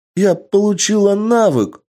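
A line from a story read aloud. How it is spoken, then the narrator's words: Joyful excited girl. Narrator (Russian): радостно ... девушка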